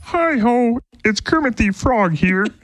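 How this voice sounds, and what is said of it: Imitates Kermit the Frog's voice. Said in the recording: “my Kermit impersonation ... That sounds like your Luke Bryan impression.”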